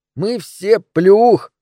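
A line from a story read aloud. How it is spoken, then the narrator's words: Muffled laughter. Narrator (Russian): хохотал Джеймс, уткнувшись носом в подол моего платья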